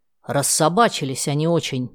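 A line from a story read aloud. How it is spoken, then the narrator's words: Grumbling. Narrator (Russian): проворчал поляк Быльский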